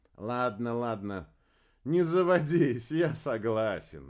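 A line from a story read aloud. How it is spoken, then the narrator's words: Laughing. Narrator (Russian): рассмеялся верзиец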